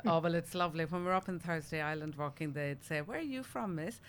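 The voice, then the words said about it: Irish accent from Cork. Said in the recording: “You got a bit of an accent there. ... I stem originally from Ireland, the south of Ireland, Cork.”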